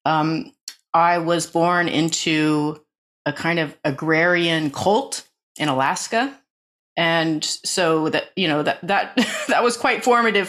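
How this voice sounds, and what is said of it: American accent. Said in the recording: “you might have guessed from my accent, although I live in England and I'm a British citizen, I was born in the United States.”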